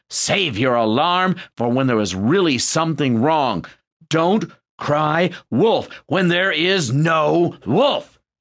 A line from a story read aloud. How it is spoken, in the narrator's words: the villagers angrily said